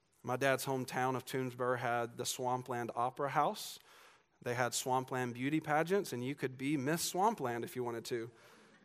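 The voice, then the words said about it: Southern American accent. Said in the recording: “southern accents ... my kind of accent”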